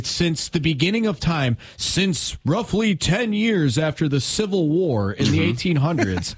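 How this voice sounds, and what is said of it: Movie narrator voice. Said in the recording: “nice ... voice ... I'm trying to kind of find my inner narrator voice ... the narrator from The Rookie when they intro the movie”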